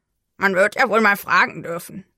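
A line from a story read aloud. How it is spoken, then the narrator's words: Grumbling. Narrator (German): brummte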